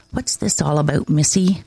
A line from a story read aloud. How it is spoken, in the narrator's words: asking quietly